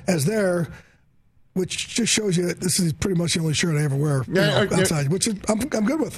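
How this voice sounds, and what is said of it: Hoarse, worn-out voice. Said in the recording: “my voice is a little shot”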